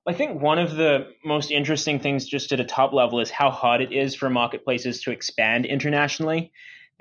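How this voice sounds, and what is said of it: International accent. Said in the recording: “you have a cool international accent”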